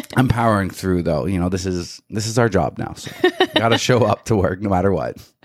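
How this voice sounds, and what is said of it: Raspy voice from illness. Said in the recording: “Your voice is a little bit ... sick today ... It's a little raspy today ... a little raspy today”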